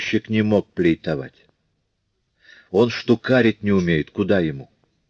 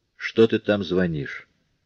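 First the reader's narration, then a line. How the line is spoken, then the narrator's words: Heated but quiet. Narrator (Russian): Брюжон возразил запальчиво, но все так же тихо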